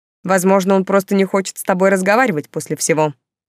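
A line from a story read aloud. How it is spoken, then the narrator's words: Cold reply. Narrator (Russian): холодно ответил свёкор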